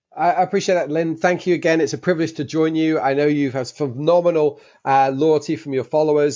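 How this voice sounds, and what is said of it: English accent from London. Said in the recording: “as you can possibly tell from my accent, I was born in London, England.”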